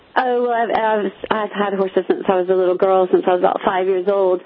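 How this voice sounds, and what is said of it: Mixed American and British accent. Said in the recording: “you are British. I'm going to guess, listening to your accent ... you picked up a bit of the accent then ... my accent's a bit confused, isn't it?”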